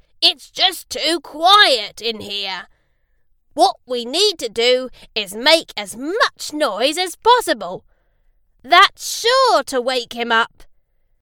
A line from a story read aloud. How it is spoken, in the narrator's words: screeched Fox